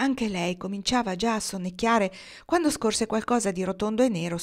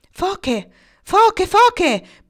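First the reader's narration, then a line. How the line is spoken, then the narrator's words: Shrieking. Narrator (Italian): prese a strillare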